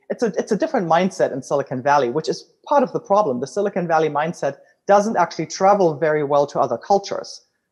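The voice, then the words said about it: German accent. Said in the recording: “as you can tell from my accent, I'm originally German.”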